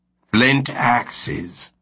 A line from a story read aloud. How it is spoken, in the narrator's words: Turpin spat out disappointedly